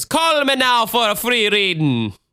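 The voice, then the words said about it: Put-on Jamaican accent, sounding Irish. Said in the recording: “I've been told that that sounds less Jamaican and more Irish by an actual Jamaican girl.”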